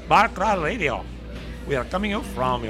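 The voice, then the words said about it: Fake Chinese accent. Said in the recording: “that fake Chinese. ... accent.”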